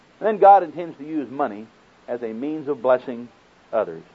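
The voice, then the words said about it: Oklahoma accent. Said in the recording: “does this Oklahoma accent bother you?”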